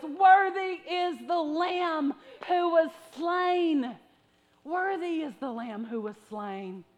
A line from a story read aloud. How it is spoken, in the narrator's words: they began to sing in a loud voice